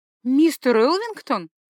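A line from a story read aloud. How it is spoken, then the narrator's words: Startled exclamation. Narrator (Russian): опешив, воскликнула я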